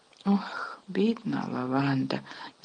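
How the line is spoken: Sighed. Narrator (Ukrainian): зітхнула Герміона

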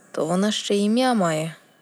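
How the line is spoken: Father sighing. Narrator (Ukrainian): батько зітхнув

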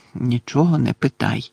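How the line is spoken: Muttered. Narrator (Ukrainian): пробурмотів Гаррі

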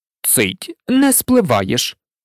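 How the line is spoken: Stern. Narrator (Ukrainian): суворо мовив тато Ларсон

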